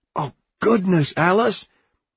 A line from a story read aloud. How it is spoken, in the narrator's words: He cried